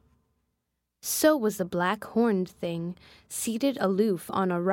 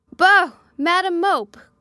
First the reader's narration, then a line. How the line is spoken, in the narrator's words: cried the voice of John Reed